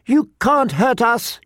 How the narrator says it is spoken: he screamed

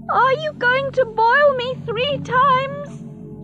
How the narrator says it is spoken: She shouted in her dream

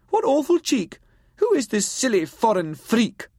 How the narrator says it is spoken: she cried

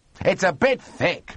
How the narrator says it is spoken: bellowed Monty

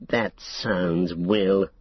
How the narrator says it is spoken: sneered Saruman

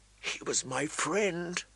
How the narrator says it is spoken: Arya whispered into her plate, so low that no one could hear

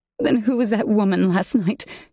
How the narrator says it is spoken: choked out

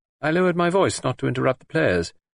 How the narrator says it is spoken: he added dryly

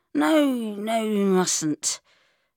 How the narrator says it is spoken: I slurred

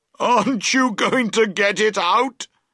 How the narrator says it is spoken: cried between his shouts of laughter

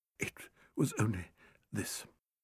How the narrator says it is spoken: said Berry, choking over each syllable

